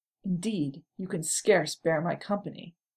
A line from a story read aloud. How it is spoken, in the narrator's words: Gimli replied, only just keeping his voice in check